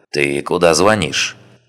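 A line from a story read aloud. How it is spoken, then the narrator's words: Plain. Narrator (Russian): спросил Рок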